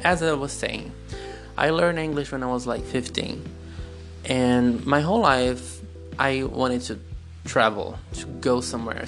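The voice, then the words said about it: Non-native accent in English. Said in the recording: “My accent is showing”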